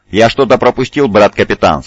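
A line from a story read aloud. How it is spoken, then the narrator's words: Plain. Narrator (Russian): спросил Сантар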